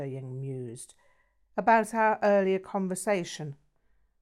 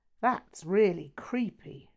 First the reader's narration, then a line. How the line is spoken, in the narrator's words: Lydia exclaimed, her eyes revealing a degree of disquiet